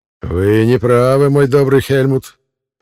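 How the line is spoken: Exclamation. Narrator (Russian): воскликнул

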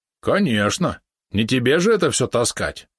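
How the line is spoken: Grumbling. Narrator (Russian): проворчал Валерон

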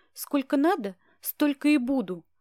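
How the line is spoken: Snapped back. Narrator (Russian): огрызнулась я

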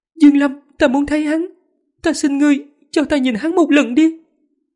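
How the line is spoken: Anguished loud cry. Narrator (Vietnamese): nàng lộ ra vẻ thống khổ, lớn tiếng hô

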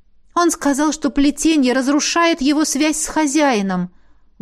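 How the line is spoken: Interrupting exclamation. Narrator (Russian): воскликнула я, перебив наставницу

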